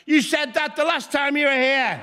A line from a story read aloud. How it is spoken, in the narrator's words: a member of the audience shouted out